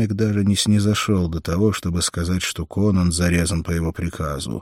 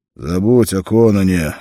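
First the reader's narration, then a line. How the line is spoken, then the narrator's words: Rough. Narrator (Russian): грубо сказал он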